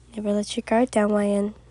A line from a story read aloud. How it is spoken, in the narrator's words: whispered in your ear